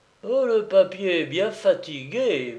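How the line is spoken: Murmured. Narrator (French): murmura-t-il

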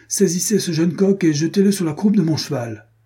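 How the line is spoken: Shouting. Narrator (French): cria-t-il

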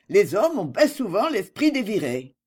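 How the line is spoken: Growling scold. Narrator (French): gronda

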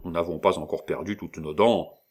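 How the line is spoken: Grumbled. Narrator (French): Commérol grommela

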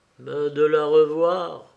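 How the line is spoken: Pitiful tone. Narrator (French): dit Béchou d'un ton piteux

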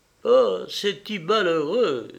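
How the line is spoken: Exclaimed with a sigh. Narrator (French): s'écria Françoise en poussant un soupir

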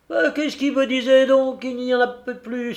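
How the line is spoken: Exclaiming. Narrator (French): s'écria le Tarasconnais

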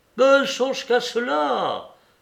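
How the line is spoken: Exclamation. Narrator (French): s'écria Freinet

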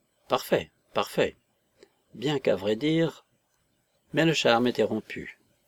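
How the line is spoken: Approving murmur. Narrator (French): Le conseiller Mikouline murmura, d'un ton d'approbation

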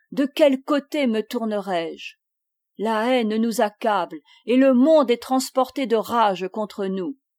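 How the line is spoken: Gentle man exclaiming. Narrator (French): s'écriait le doux Mélenchon

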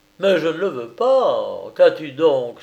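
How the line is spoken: Exclaimed. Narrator (French): s'écria Thaddée

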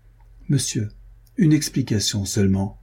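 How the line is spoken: Cold. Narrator (French): reprit Renaud froidement

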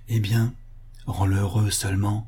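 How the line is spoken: Grandmother murmuring. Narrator (French): murmura la grand-mère

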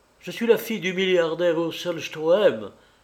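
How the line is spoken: Distraught cry. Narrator (French): s'écria avec égarement

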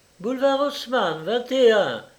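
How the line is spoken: Shouting. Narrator (French): cria Trémolo au cocher

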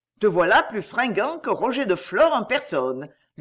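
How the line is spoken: Playful bantering tone. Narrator (French): dit le torero d'un ton badin

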